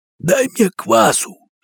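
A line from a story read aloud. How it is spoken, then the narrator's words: Hoarse reply. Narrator (Russian): сипло ответил перепаренный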